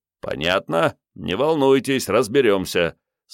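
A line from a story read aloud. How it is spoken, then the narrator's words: Stern official tone. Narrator (Russian): строгим служебным голосом заверил Вано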